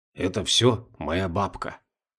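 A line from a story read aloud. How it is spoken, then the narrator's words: Mysterious near-whisper. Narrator (Russian): почти шепотом таинственно произнес Олег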